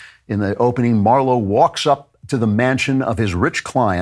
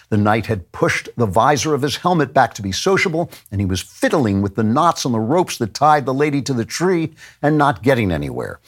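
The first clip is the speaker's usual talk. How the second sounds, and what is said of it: Tough-guy detective narrator voice. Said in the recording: “I'll try to read it in a tough voice.”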